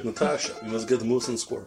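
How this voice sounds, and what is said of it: Put-on Russian accent, quite good. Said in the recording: “I get my Russian accent from Boris Bednov. ... It's actually very good.”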